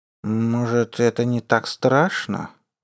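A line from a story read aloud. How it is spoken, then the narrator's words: Thoughtful drawl. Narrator (Russian): протянул задумчиво Моисей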